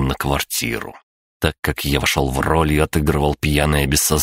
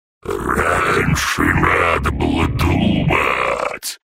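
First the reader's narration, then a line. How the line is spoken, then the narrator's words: Wailing. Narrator (Russian): взвыл Пишачи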